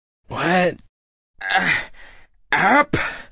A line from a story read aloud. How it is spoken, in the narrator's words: Drake grunted